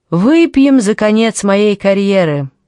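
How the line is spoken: Loud female laughter. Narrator (Russian): она громко рассмеялась

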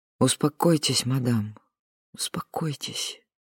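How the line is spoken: Soft, soothing. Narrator (Russian): мягко сказала Луиза

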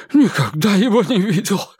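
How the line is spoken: Breathed out. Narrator (Russian): выдохнул Кулпеппер

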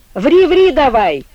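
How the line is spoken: Cheerful shout from doorway. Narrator (Russian): весело крикнул бухгалтер от порога

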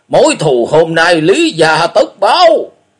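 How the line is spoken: Shout. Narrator (Vietnamese): Tiếng quát

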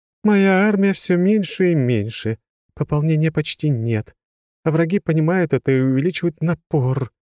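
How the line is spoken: Moaning goddess. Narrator (Russian): простонала богиня

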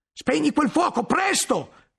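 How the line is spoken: Shouting. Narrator (Italian): gridò Guglielmo

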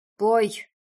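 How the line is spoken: Angry growl. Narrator (Russian): зарычал Даран, когда я сбилась во второй раз

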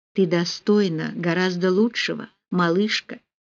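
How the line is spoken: Soft reply. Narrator (Russian): мягко ответил Рауль

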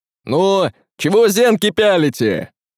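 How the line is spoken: Man shouting. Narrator (Russian): крикнул мужик

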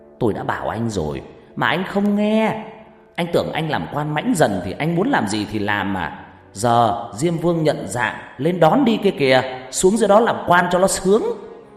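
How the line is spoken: Explosive shouting. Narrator (Vietnamese): thầy la lên như muốn nổ tung cả phòng bệnh

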